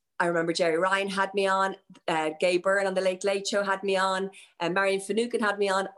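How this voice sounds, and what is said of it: Placeless Dublin Irish accent. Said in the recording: “Placeless Accent ... the new Dort accent”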